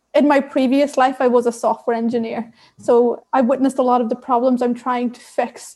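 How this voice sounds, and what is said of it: Irish accent. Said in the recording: “you may be able to tell by my accent that I am Irish.”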